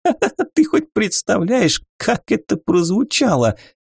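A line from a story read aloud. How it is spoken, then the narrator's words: Forced out through laughter. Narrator (Russian): Сквозь смех выдавила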